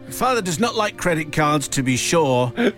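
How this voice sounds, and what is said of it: Strong Irish accent. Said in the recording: “she replied in a strong Irish accent”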